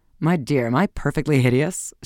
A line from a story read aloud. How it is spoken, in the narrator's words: she asked gaily